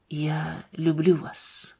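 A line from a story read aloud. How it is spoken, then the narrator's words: Soft whisper. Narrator (Russian): прошептал он тихо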